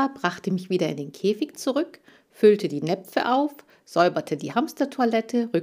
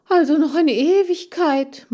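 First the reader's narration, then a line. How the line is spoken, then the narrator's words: Sighing. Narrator (German): meinte ich seufzend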